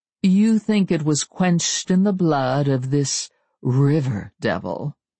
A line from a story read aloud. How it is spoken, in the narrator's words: He sneered on the last two words